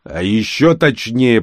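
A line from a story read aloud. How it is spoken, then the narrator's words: Growled. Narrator (Russian): прорычал он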